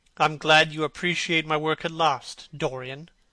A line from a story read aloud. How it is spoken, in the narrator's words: said Hallward coldly, when he had recovered from his surprise